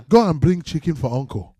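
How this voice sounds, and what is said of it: Put-on melodic Yoruba accent. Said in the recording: “how to do like the Yoruba accent... Everything's melody”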